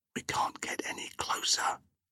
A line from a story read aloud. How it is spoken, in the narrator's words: Kasar whispered